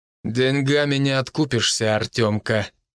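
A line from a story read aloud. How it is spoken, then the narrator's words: Through gritted teeth. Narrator (Russian): процедил Матвей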